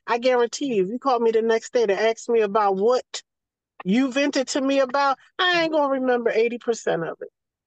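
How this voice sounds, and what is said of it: Southern American accent. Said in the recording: “my accent or my vernacular, they know it's some South in me”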